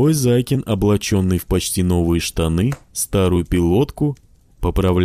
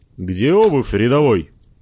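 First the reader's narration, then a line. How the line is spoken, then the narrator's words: Barked order. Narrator (Russian): рявкнул вошедший в образ Дошкин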